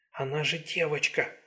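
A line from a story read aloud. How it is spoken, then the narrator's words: Whisper. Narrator (Russian): прошептала она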